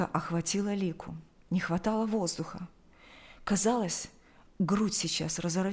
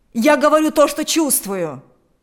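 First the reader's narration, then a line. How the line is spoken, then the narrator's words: Shouting. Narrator (Russian): закричал Игорь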